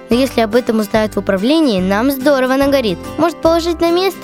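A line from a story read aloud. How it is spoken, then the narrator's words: Plain. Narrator (Russian): спросил пылесосин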